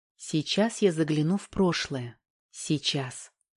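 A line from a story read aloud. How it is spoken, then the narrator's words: Whisper. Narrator (Russian): прошептала Валька, представляя себя гипнотизером, провидицей, гадалкой и экстрасенсом сразу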